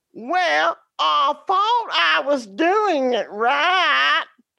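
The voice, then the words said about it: Southern twang. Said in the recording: “He said in that southern twang”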